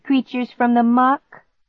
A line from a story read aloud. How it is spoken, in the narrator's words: I laughed